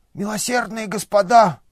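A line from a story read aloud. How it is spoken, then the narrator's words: Hoarse wheeze. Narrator (Russian): захрипел он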